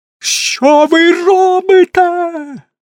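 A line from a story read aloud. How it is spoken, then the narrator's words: Frantic scream. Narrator (Ukrainian): несамовито скрикнув Карсон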